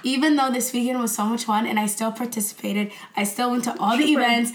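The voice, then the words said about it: Weak, strained sick voice. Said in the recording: “As you can tell from my voice, I'm sick ... I can barely talk, as you can hear.”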